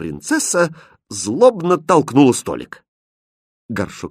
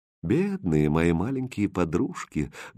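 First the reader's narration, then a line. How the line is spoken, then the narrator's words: Sad and tender. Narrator (Russian): грустно и нежно сказал Хрустальд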